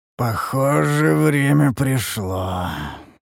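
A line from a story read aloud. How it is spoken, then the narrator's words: Hoarse. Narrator (Russian): произнес я хрипло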